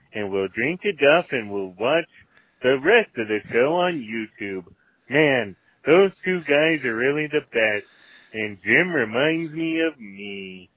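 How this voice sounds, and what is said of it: Homer Simpson cartoon voice impression. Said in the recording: “Homer Simpson called ... That's a good impression.”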